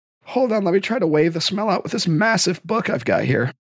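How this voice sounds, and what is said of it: Rough, sick-sounding voice. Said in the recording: “My voice is screwed up. ... I've been sick for a while. So you're going to have to deal with my crappy voice.”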